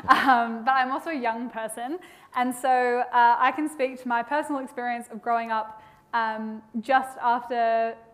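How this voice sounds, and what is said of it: Australian accent. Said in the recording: “I'm an Australian, although that accent just gets more and more stark the more I sit between these two.”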